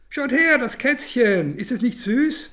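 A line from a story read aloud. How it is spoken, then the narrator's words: Girl calling out. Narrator (German): ruft das Mädchen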